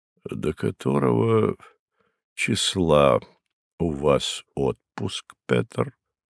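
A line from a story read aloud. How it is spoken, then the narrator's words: Dull muffled voice. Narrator (Russian): продолжал тем же глухим голосом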